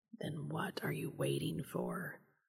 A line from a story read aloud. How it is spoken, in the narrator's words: whispered